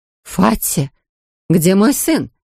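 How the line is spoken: Frightened cry. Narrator (Russian): испуганно вскрикнула миссис Тротвиль

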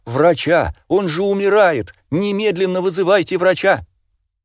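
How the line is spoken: Woman screaming. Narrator (Russian): Все тот же женский голос снова закричал

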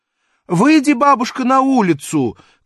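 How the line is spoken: Shouting lady. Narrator (Russian): крикнула барыня

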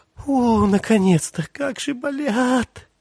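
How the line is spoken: Breathed out. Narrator (Russian): выдохнула она

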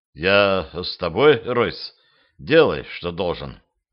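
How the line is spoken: Quiet. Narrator (Russian): Второй пилот снова сглотнул, тихо произнес

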